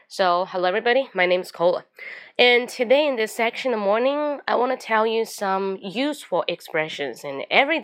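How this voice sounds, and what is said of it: Hoarse morning voice. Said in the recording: “you can see from my voice, because my voice get a little bit hoarse. So it's a hoarse”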